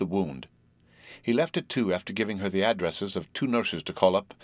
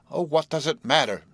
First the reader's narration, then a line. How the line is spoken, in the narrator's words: She cried